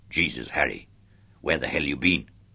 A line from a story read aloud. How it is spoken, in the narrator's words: he growled